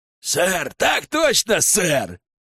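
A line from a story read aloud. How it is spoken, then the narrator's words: Dwarf barking. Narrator (Russian): Рявкнул гном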